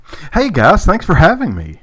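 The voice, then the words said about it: Radio DJ style voice. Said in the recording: “I like that DJ voice.”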